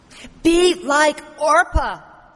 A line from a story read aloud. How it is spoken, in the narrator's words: almost yells in her desperation